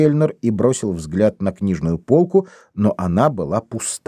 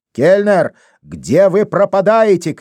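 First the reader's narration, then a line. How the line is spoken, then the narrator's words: Shouted. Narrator (Russian): крикнул Демба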